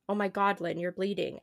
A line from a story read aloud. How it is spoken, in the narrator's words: said